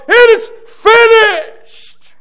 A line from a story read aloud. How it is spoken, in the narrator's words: he cries out, forcing it out of his lungs